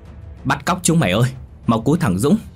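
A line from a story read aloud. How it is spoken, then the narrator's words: Urgent, repeated shouting. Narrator (Vietnamese): Bảo vội vàng, miệng không ngừng hét lớn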